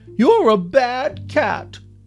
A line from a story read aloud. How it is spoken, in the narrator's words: Juicebox cried from the other room